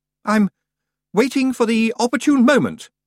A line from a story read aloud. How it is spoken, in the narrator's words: said Roland haughtily